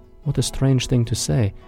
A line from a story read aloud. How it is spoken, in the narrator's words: said quietly